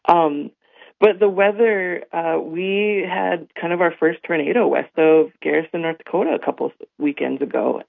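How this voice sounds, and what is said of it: Worn-out, strained voice. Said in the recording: “I've got allergies, and so my voice is a little shot too... hooting and hollering and screaming... my voice is a little off today”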